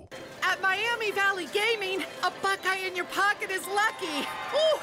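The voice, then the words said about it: Yelling loudly. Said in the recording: “why am I yelling?... sometimes you need to speak up”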